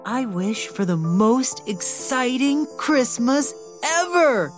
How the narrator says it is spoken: he exclaimed

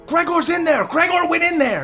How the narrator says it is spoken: a few people are yelling

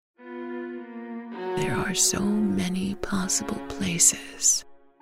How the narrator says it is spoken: the oak whisper

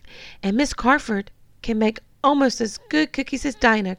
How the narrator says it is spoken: cried Freddie

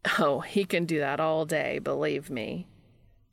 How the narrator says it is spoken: Jimmy says with a dry laugh

